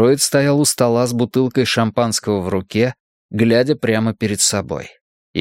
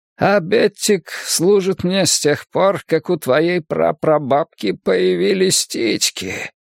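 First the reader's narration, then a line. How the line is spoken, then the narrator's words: Old man's rasp. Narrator (Russian): прохрипел старик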